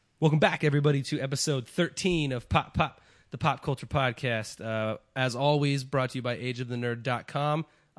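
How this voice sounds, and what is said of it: Sounds a little sick, stuffy. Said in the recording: “I sound a little sick ... My allergies are going crazy.”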